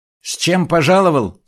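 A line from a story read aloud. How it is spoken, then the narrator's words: Loud question. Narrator (Russian): спросил князь громко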